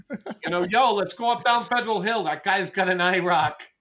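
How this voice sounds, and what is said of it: Put-on Rhode Island accent. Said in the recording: “I start talking like I'm from fucking Rhode Island too”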